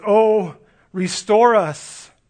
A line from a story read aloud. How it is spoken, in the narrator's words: David pleads